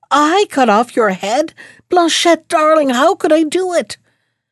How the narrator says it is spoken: cried the prince

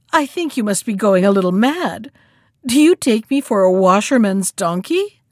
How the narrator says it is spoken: answered the monkey with a chuckle

